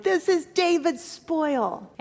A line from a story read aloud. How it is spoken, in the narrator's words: they shouted